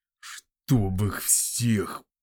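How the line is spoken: Muttered through clenched teeth. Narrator (Russian): процедил сквозь зубы входящий в конюшню Бори Гарфрик

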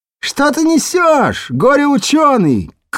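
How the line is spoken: Shout from crowd. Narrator (Russian): крикнули ему из толпы

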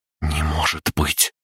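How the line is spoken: Whisper. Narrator (Russian): прошептала Кристина

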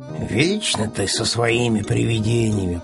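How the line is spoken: Grumbling. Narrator (Russian): проворчал Пэтсон

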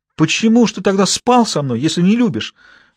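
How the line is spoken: Young girl sobbing into phone. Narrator (Russian): всхлипывала малолетка в свой телефон

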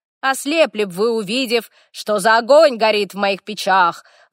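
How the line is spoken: Ominous roar. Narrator (Russian): зловеще проревел

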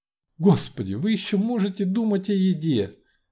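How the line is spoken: Exclamation. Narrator (Russian): воскликнула Лариса

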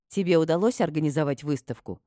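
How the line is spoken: Plain. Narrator (Russian): спросила я

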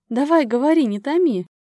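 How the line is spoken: Laughing, over the phone. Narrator (Russian): засмеялась она в трубку

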